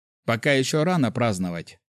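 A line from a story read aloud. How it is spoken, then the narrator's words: Wry snort. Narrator (Russian): хмыкнул я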